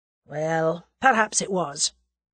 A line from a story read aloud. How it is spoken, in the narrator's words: admitted Sir James gravely